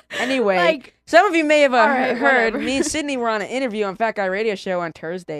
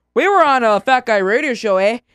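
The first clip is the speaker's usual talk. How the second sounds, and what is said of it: Put-on Canadian accent. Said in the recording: “That's Canadian. I'm from Irish to Canadian. ... I can't do accents because it'll go from Irish to Canadian to Cholo.”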